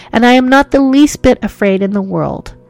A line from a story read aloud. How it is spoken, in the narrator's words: I cried through hot tears